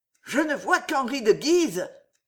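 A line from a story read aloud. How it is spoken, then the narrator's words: Muffled panting. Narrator (French): haleta sourdement Catherine de Médicis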